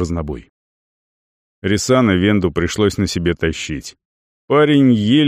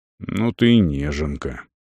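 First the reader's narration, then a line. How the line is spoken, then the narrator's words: Grumbling warrior. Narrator (Russian): пробурчал воин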